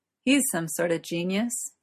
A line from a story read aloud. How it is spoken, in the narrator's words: chuckled Gawain